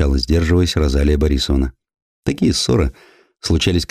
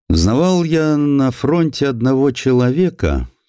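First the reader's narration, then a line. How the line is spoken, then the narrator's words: Plain. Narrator (Russian): сказал боец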